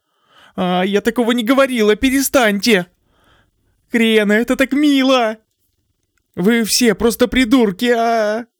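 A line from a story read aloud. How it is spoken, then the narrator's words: Furious shouting. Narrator (Russian): Окончательно выйдя из себя, Крена закричала сразу на всех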